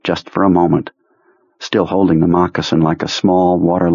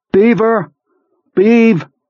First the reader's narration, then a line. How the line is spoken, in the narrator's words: Henry shouts